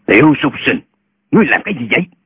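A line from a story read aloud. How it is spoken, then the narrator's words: Old man's furious shout. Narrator (Vietnamese): Lão ... cá giận quát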